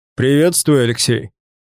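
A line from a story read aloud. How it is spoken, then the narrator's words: Booming voice. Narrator (Russian): прогремел знакомый голос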